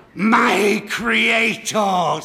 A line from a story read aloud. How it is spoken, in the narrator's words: screamed the cat in a very loud voice that agreed perfectly with the hideousness of its outward appearance